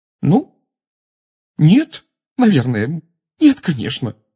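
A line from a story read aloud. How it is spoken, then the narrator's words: Angry, tearful. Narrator (Russian): сказала она, сердито вытирая глаза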